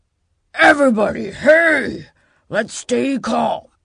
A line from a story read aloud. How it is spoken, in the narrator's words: Knox roared